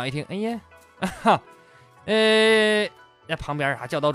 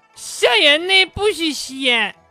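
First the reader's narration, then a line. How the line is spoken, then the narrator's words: Shouted. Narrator (Chinese): 小明大喊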